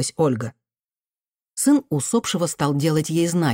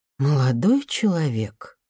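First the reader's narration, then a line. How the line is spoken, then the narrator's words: Tired voice on phone. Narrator (Russian): устало произнесли на том конце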